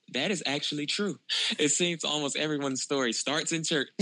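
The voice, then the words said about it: Southern American twang. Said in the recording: “you got that good southern thing going ... the southern twang ... The southern twang, I love it.”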